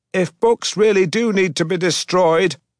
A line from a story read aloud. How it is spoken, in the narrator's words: screamed at the foreman over the deafening roar of the machinery